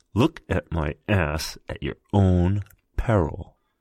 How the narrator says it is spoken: hissed

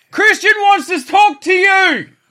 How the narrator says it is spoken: She shouts

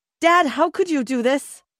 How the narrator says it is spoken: We yelled

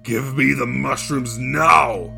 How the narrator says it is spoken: yelled the Kikimora, her voice rasping

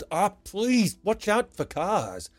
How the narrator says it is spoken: the man, yelled

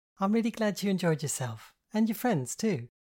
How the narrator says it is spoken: she said cheerfully

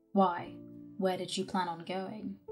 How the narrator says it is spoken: his voice was flat and devoid of all inflection

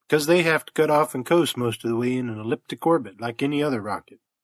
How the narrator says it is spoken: answered Jonner calmly

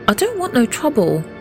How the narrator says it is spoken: Jack pleaded with David

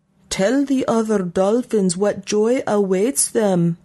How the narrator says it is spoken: the little Maj shouted after Peepo

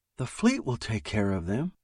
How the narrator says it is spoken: Leah said soothingly

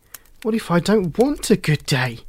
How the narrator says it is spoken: exclaimed Shelley

